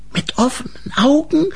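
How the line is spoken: Hissing back. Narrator (German): zischte Grete zurück

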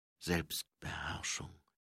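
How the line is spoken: Quiet reply. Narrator (German): erwiderte sie leise

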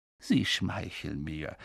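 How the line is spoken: Quiet. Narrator (German): sagte Dumbledore leise

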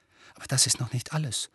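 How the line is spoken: Almost whispering. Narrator (German): fuhr Harry jetzt fast flüsternd fort

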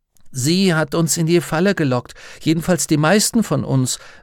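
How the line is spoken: Plain. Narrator (German): sagte Martha

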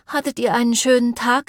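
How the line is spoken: Sighing question. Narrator (German): fragte Maple seufzend

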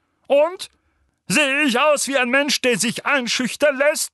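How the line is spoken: Barked. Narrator (German): bellte Onkel Vernon

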